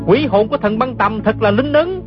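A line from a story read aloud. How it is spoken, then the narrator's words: Overjoyed shout. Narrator (Vietnamese): gã không nén nổi sung sướng la lên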